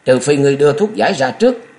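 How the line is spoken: Shout despite slight fear. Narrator (Vietnamese): Nhạc Tiểu Long hơi sợ, chàng vẫn quát

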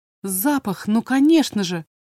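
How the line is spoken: Exclamation. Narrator (Russian): воскликнула она

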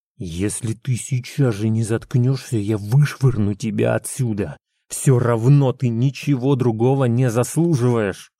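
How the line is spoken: Hissed through teeth. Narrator (Russian): прошипел сквозь зубы

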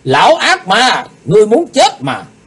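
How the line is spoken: Loud shout. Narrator (Vietnamese): Lạc Bá Đào hét lớn

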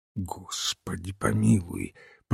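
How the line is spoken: Whisper. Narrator (Russian): прошептал Олбоин

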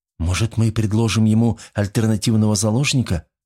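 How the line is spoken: Timid question. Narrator (Russian): робко спросила Джесс

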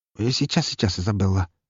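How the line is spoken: Mutter. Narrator (Russian): пробормотал он

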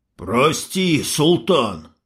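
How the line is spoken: Rasping, coughing up blood. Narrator (Russian): хрипит, выплевывая кровь индеец

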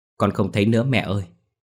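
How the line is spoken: Frightened children reply. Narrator (Vietnamese): Hai đứa sợ hãi đáp lại

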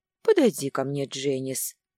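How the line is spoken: Deceptively soft, relishing. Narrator (Russian): За обманчиво мягким тоном скрывалось лишь порочное удовольствие

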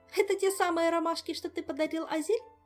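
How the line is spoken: Laughing. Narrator (Russian): засмеялась Ольга

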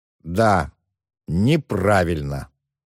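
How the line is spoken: Slow repetition. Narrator (Russian): медленно повторил тот

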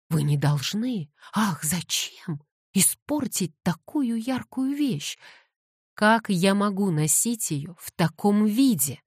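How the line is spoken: Exclaimed. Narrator (Russian): воскликнула Кэтлин

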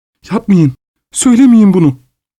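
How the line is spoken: Cried out. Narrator (Turkish): diye haykırdı

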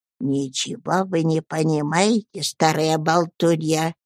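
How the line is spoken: Indignant whisper, old woman. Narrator (Russian): бросила негодующим шепотом бабушка

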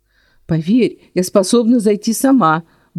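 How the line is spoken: Irritated grumble. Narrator (Russian): буркнула раздраженно

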